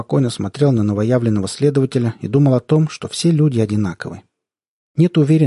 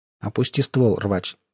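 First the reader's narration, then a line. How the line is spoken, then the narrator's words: Quiet voice. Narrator (Russian): тихим голосом сказал Сток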